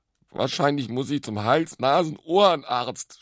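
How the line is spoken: Sobbing. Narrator (German): schluchzte er

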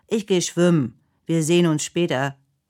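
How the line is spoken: Calling out. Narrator (German): ruft er

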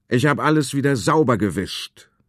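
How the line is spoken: Cheerful call from above. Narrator (German): der große Konrad ruft gut gelaunt in den Hof hinunter

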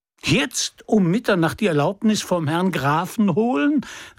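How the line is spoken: Young man exclaiming. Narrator (German): rief der junge Mann

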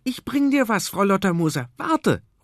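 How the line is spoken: Calling out. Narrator (German): ruft

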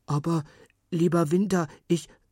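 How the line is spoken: Stammering. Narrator (German): stammelte Karl Gustav

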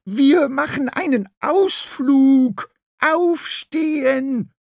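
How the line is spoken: Screeching into ear. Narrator (German): Graugans ... kreischte ihm ins Ohr

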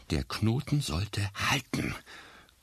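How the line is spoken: Panting. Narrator (German): keuchte Florian schließlich

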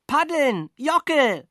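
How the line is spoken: Shouting while swallowing water. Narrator (German): schrie ich und schluckte dabei mindestens den halben Bach

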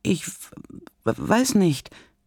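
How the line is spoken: Flustered stammer. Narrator (German): stottert Paula überrumpelt

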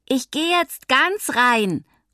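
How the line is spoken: Calling out. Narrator (German): ruft Mathilda ihnen entgegen

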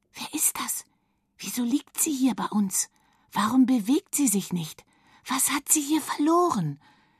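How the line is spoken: Whispering of many bright voices. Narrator (German): wisperte es um sie herum, wie von 1000 hellen Stimmen

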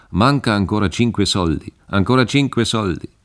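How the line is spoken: Loud repeated calling. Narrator (German): rief und wiederholte mit lauter Stimme

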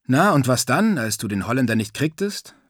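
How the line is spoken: Plain. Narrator (German): fragte ich

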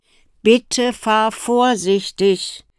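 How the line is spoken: Mother calling after. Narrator (German): rief ihr ihre Mutter nach

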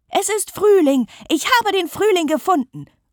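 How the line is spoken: Calling out. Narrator (German): ruft sie

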